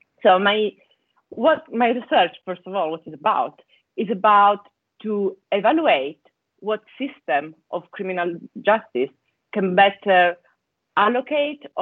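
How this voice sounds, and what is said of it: Italian accent. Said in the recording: “as you can guess from my accent, I come from Italy”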